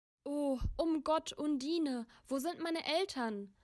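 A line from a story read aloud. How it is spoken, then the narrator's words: Crying, calling out. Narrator (German): rief die weinende Bertalda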